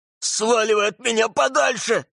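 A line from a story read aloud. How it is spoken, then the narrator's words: Yelling. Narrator (Russian): заорал он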